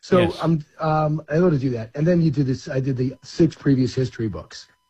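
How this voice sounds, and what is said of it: Slightly hoarse voice. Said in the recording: “losing your voice ... I'm a little hoarse”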